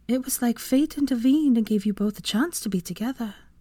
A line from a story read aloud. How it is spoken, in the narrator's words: Her voice became wistful as she said